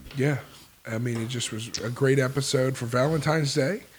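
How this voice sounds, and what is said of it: Voice still rough from illness. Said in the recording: “If you can hear, my voice is still not fully recovered from the sickness”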